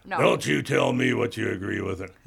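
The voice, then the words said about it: Gravelly put-on voice. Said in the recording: “give my gravelly voice thing”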